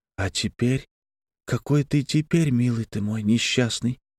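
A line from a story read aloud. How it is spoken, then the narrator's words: Whisper. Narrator (Russian): шептала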